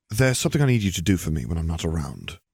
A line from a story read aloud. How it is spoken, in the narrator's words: he murmured